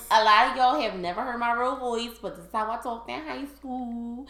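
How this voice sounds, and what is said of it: Philadelphia accent. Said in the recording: “I'm speaking my Philly accent.”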